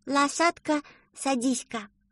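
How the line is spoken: Even sleepier voice. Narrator (Russian): Еще более сонным голосом ответила Рита

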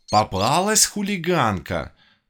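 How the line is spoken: Exclamation. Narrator (Russian): воскликнула она

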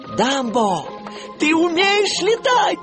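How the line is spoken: Joyful shout. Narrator (Russian): радостно крикнул Тимоти

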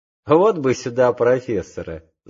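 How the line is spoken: Laughing. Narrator (Russian): засмеялся Педро

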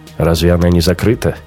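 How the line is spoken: Skeptical snort. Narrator (Russian): Раухер хмыкнул

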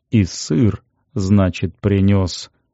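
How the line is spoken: Respectful mutter. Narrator (Russian): уважительно пробормотал себе под нос гриб

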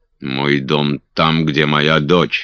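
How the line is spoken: Angry reply. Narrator (Russian): сердито отозвался Кастл

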